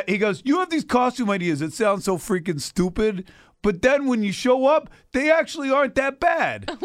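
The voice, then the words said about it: Brooklyn tough-guy accent. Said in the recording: “He's from Brooklyn. ... he's always from Brooklyn for some reason. ... Why are you giving him that accent? ... he's got like that tough guy, you know, thing going for him.”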